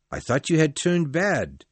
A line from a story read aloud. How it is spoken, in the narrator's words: the priest said happily